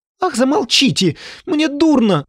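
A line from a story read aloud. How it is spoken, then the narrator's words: Squeaky lapdog voice. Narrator (Russian): запищала болонка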